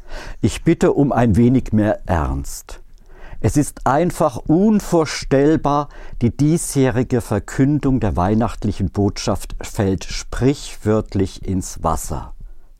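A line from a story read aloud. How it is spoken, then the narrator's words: Stern admonishing nun. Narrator (German): ermahnte die Mutter Oberin streng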